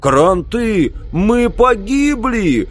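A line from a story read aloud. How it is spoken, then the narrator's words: Wild yell. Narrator (Russian): дико заорал Билл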